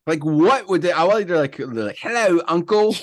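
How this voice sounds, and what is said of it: Put-on accent. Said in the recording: “I don't know why I have that accent.”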